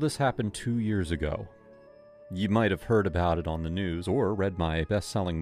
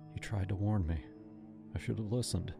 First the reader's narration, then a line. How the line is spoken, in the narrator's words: he whispered